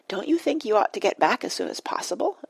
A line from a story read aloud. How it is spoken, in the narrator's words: asked Penelope anxiously